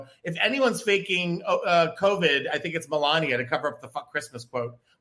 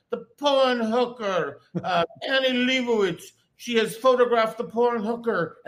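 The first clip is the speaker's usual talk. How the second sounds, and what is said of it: Imitates another person's voice. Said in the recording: “my Melania impersonation ... I thought Melania had joined us.”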